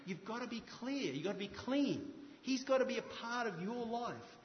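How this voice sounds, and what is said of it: Speaker's own non-native accent. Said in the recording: “It's bad enough with my accent”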